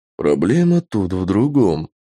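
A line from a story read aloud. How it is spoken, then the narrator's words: Tired reply. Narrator (Russian): устало отозвался сэр Дэвид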